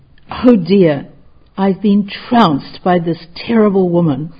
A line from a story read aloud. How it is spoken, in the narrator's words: Hakuin exclaimed